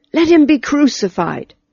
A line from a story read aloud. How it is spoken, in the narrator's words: With one accord they cried